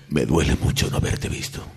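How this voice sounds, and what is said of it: Deliberately deeper dramatic voice. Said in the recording (Spanish): “Es solamente poner la voz más grave.”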